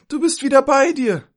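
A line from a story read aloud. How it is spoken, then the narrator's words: Calling out. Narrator (German): rief sie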